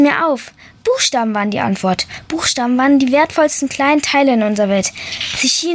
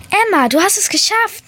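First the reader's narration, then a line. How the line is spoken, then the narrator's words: Calling out. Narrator (German): rief meine erste Letra-Möwe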